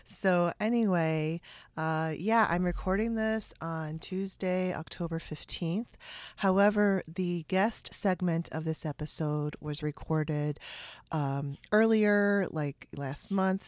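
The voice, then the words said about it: Weird, sick-sounding voice. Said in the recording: “my voice is going to be really weird and funny. I am sick this week, so I'm doing my best to keep my voice steady and keep the coughing down”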